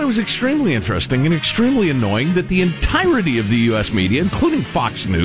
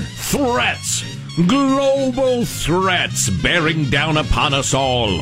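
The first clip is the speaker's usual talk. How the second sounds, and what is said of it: Serious old newsreel announcer voice. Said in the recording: “That's my serious voice. ... For serious times. ... It's my kind of World War II footage announcer voice.”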